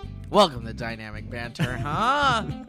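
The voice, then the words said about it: Yelling loudly. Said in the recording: “I shouldn't be yelling. ... Okay, then definitely stop yelling.”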